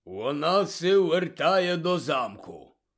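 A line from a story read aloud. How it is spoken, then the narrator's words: Quiet grumble. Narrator (Ukrainian): буркнув він неголосно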